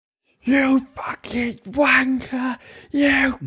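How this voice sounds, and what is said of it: Man screaming angrily at referee. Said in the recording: “Man screaming at the ref.”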